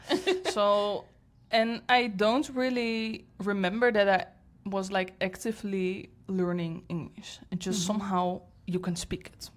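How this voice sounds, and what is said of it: Non-native accented English. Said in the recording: “I'm fluent, but I have an accent”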